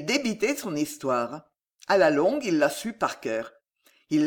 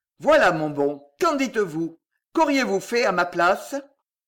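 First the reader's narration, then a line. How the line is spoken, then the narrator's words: Sneering laugh. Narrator (French): si on le blâmait de sa mansuétude, il ricanait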